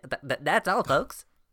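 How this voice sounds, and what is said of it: Cartoon pig character voice impression. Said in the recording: “I sound like your man, that pig from Warner Brothers. ... That was a very good impression”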